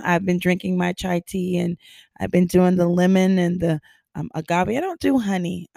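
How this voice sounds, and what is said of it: Raspy, husky voice. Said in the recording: “my voice is sounding like a husky... my voice is just so raspy.”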